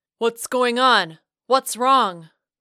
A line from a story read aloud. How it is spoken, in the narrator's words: a voice, the gruff tones of a green and khaki-clad angel shouting